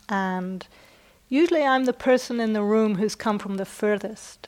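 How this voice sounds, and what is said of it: British accent. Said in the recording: “you may have heard from my accent that I'm not from the US. I'm originally from Britain”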